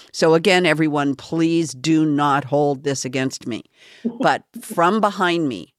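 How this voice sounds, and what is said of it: Usual voice. Nothing is said of it.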